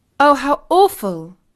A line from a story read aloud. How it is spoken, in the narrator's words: exclaimed Katie